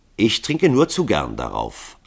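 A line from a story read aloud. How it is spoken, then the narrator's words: Calm. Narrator (German): antwortete Hall ruhig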